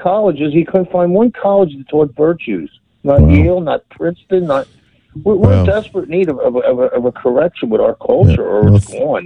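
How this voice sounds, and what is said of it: Philadelphia accent. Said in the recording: “that Philly accent”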